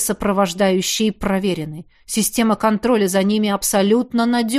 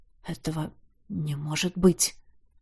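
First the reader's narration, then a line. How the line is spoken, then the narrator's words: Disbelieving mutter. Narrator (Russian): пробормотал он, неверяще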